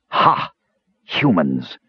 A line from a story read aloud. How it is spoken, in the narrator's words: spat one demon